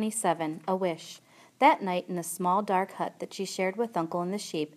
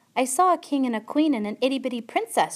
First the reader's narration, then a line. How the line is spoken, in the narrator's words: shouted Mig